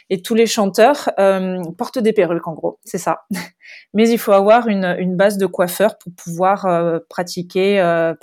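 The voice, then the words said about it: Light southern French accent. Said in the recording (French): “un petit accent du sud... il est léger... l'accent du sud, ah, il est léger”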